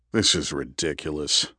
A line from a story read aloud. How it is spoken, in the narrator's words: Andrew muttered